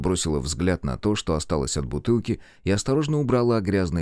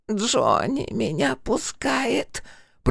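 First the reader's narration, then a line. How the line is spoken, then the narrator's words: Hoarse croak. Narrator (Russian): прохрипела та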